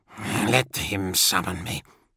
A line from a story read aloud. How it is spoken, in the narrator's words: the librarian sorcerer muttered